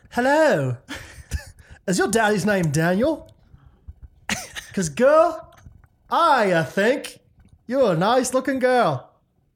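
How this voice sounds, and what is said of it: Put-on accent. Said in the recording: “New accent.”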